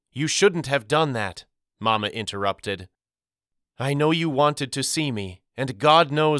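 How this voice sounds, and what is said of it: Usual voice. Nothing is said of it.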